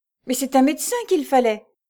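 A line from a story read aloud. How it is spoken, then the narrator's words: Desperate cry. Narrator (French): s'écria Jeanne au désespoir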